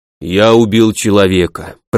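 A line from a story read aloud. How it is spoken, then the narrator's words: Deep bass voice. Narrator (Russian): пробасил тот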